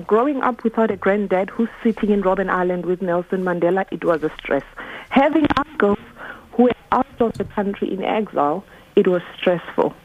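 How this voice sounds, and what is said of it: South African accent. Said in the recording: “I'm South African ... I picked that up from the accent.”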